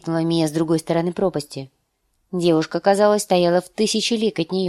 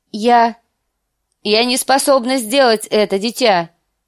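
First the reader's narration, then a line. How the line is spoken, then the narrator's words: Cried out. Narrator (Russian): выкрикнула она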